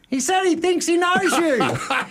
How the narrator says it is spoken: Brett yells back

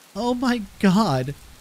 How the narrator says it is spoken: Jennifer gasped, in horror

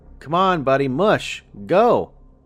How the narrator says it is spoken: I bellowed

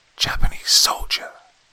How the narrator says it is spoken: hissed

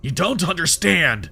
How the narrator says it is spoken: he spat

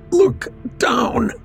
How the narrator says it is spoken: Struggling to breathe, managed to grin and choked out

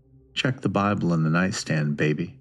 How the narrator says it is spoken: Melvin's voice growled

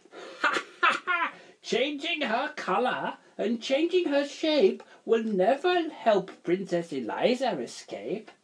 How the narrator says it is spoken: The wizard just laughed his horrible laugh and said

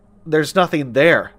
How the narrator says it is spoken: said Seb

